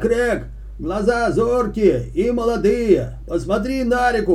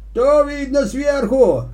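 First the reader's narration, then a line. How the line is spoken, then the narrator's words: Old man shouting. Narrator (Russian): крикнул старик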